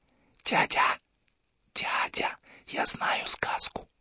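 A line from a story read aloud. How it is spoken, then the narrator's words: Whispering. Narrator (Russian): шепотом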